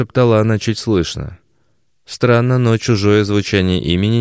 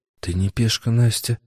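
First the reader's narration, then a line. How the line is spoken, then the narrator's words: Young woman's whisper. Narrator (Russian): еще раз прошептала девушка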